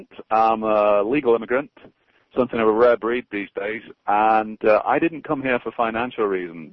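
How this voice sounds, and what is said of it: Foreign immigrant accent. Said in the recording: “As you can probably tell from my accent, I'm an immigrant.”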